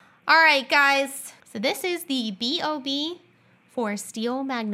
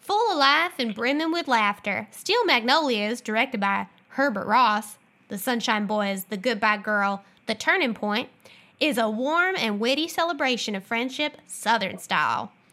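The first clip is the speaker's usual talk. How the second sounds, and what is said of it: Put-on Southern accent. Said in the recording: “Am I supposed to do a Southern accent? ... Yes. ... Oh, boy. Even Fiona meowed at that one.”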